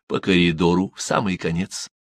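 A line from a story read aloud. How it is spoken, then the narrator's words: Quiet whisper in ear. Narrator (Russian): Он тихо прошептал на ухо Штимелю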